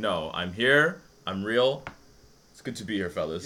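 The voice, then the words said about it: Speaks with a distinct, pleasant accent. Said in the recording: “This is not a nasally Australian accent, ladies and gentlemen. This is a beautiful accent”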